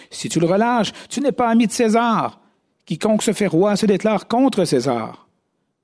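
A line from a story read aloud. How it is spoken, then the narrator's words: Crowd shouting. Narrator (French): les Juifs criaient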